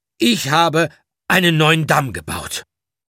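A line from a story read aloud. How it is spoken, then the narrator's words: Loud and clear. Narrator (German): sagte laut und deutlich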